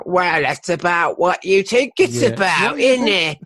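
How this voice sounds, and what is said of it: Imitates another person's voice. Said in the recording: “great impression of him”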